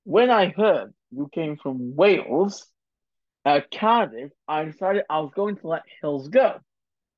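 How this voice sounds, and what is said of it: Impression of Idi Amin. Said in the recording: “cue the impersonation.”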